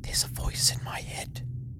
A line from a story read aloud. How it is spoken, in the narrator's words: Fee whispered